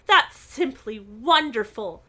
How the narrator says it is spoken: cried Nancy

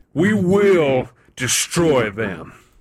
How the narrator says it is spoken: Kronos roared

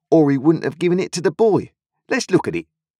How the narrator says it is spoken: Joe triumphantly

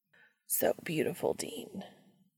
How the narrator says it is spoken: Castiel rasps

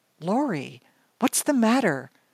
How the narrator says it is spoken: she finally blurted out

